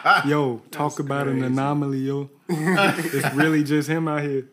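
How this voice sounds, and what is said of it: Put-on New York accent. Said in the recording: “Is that a New York accent?”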